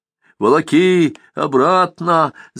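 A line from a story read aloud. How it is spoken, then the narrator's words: Shouted from behind. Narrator (Russian): закричали Яшки в затылок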